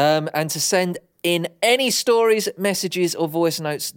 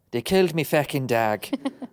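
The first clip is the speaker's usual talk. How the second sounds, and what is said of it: Put-on Irish accent. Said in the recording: “You do love that Irish accent, don't you?”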